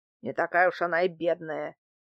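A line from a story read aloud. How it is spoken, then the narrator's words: Displeased grumble. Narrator (Russian): недовольно проворчал он в ответ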